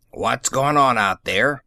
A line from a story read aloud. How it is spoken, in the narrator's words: he bellowed